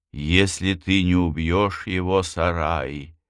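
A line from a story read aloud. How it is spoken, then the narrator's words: Sad girl. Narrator (Russian): грустно произнесла девочка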